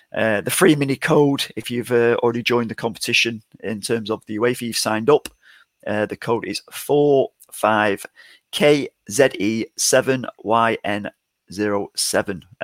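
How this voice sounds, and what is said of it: English accent. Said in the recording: “my English accent.”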